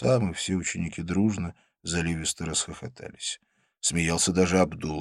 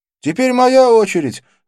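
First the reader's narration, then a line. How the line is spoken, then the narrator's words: Shouting. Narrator (Russian): закричал Арджун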